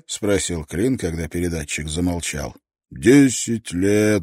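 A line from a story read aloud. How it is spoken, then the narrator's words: Sighing. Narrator (Russian): вздохнул Шеннон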